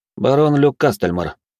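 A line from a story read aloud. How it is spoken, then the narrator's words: Calm reply. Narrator (Russian): спокойно ответил я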